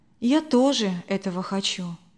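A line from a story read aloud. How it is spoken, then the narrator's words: Quiet. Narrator (Russian): тихо ответила она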